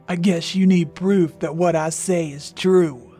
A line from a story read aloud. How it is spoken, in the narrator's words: The raspy, strange voice answered once again